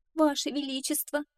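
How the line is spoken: Pleading. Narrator (Russian): взмолилась сестра

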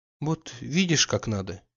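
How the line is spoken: Quiet. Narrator (Russian): еще прибавила она тихо

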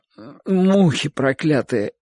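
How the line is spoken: Sleepy mumble. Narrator (Russian): Сонным голосом пробурчал Чик

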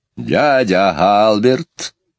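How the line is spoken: Stern. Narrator (Russian): строго сказала Мэри Поппинс

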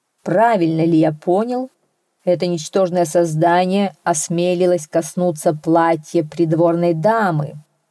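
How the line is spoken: Menacing king. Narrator (Russian): грозно попросил король

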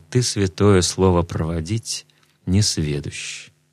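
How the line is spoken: Sad, calm reply. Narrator (Russian): Тимофей не осерчал, но только грустно омрачился в лице и отвечает

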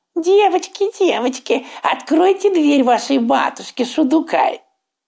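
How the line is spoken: Wolf's thin squeaky voice. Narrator (Russian): волк пропищал тонким голосом

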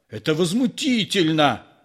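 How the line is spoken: One-eyed man yelling. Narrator (Russian): заорал одноглазый

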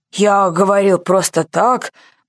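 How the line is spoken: Grumbled. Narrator (Russian): проворчал генерал

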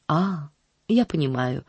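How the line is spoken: Very gentle reply. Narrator (Russian): ответила мисс Полли очень мягко

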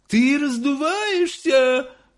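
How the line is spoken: Shouting again, woman. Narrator (Russian): снова закричала миссис Боригард

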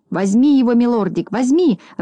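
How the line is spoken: Joyful squealing. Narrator (Russian): радостно визжал Клопс

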